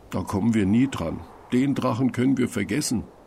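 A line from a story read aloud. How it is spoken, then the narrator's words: Sad, dejected. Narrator (German): sagt Tim und lässt traurig den Kopf hängen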